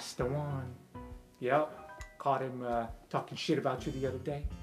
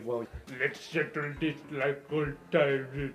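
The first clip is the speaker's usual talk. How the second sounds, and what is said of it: Imitates another character's voice. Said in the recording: “That's a really good Rampart impression.”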